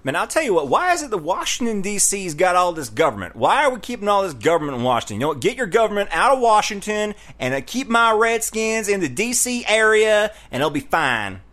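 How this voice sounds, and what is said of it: Put-on Southern US accent. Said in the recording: “it sounds like you're Texan there ... Get your southern accent straight. Texas is not the only southern accent. This one's not Texas.”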